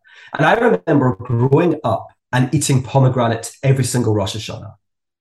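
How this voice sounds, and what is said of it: Scottish accent. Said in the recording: “I'm from Scotland, as you can probably tell from my accent.”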